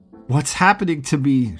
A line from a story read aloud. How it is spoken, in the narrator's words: she yelled at Edmund